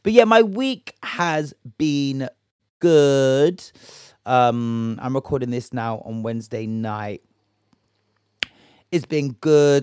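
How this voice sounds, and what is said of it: Hoarse, gravelly voice. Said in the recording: “my voice is doing up Higgy Hagger and doing up Cookie Monster”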